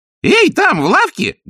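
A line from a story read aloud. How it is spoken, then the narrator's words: Loud bark. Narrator (Russian): гаркнула нянюшка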